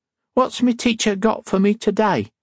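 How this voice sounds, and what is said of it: Cockney accent. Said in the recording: “That's a good Cockney accent.”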